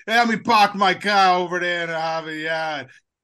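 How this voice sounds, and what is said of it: Exaggerated Boston accent. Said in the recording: “We need you to do a Boston accent... do a Boston... Boston accent.”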